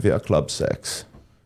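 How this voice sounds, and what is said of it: Put-on Eastern European accent. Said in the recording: “you have to say it with an Eastern European accent.”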